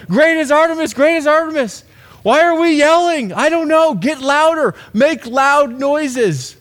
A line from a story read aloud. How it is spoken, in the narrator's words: screaming, yelling